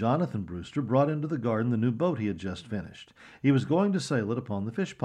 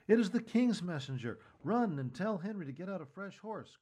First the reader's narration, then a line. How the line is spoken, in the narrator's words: cried Patience